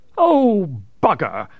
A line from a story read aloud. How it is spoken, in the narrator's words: exclaimed